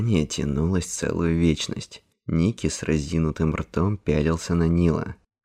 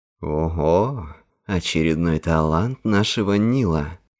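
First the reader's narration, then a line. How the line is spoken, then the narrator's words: Drawled. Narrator (Russian): протянул он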